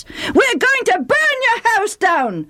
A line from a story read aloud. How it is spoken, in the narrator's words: the Ephraimites screamed